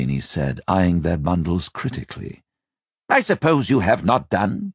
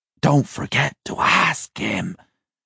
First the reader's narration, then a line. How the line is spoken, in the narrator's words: hissed Jeremias